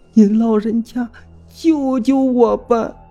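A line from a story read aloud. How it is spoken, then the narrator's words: Sobbing, wailing plea. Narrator (Chinese): 小雪瑞……痛哭流涕地哀嚎不止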